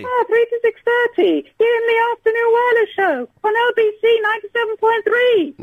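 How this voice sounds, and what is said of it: Very high-pitched falsetto voice. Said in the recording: “Higher, as high as you can go... soprano... Even higher than that... castrato... No, I want high.”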